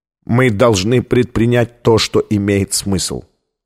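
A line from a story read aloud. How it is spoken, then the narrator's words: Plain. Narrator (Russian): ответил Колер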